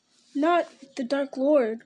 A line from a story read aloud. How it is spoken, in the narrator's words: cried Pippin, forgetting his place in his terror